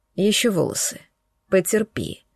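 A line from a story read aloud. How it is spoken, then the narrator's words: Soft. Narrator (Russian): мягко сказал Ренат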